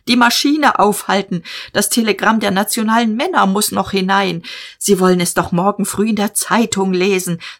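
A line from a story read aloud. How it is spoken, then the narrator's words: Shouted. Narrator (German): schrie er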